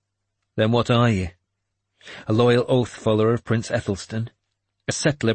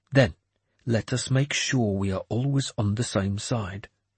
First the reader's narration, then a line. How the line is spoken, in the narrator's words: he said quietly